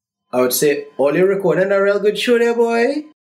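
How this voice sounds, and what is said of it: Sing-songy regional accent. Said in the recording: “awesome accent ... it's kind of sing-songy”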